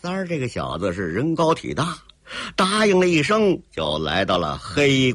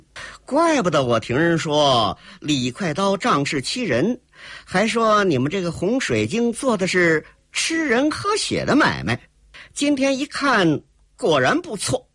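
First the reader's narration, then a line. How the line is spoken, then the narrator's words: Cold sneering laugh. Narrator (Chinese): 黑衣少女冷冷一笑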